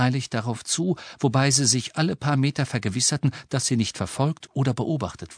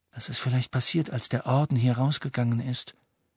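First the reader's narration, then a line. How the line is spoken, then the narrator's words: Quiet reply. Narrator (German): erwiderte Ron leise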